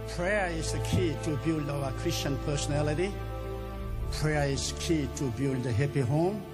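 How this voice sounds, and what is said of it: Strong foreign accent. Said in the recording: “It's got a funny accent”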